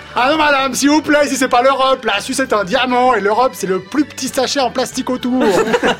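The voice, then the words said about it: Put-on Swiss French accent. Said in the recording (French): “est-ce qu'il va prendre l'accent? J'ai pas été déçu ... c'est vraiment l'accent vaudois”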